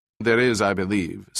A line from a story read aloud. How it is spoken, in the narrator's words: said Morton in an official tone